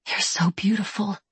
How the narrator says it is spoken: she whispers

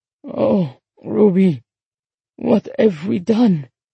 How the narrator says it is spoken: he asked in a strangled voice

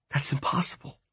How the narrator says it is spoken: she whispered

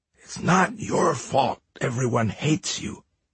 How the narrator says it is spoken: he whispered to Thor

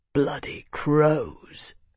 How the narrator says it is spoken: Bernard breathed

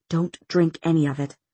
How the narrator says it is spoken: he said under his breath

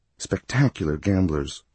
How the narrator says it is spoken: she whispered

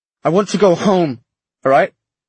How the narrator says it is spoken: Matthew snapped

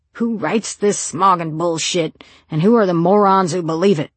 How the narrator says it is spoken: When he was in a roaring mood, Lisey, he could roar like Ahab during the last days of the Pequod

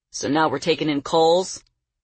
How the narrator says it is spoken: Claude said, his voice hard

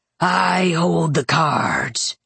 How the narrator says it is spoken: Razor rasped

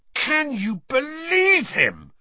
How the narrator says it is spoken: roared Ron, as one of the remaining pixies bit him painfully on the ear

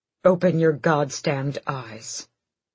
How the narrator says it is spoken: Adian snarled

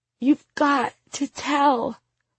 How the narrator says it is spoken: Anna sobs desperately

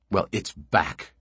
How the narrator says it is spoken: she continued savagely

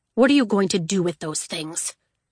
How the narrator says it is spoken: Legend grunted

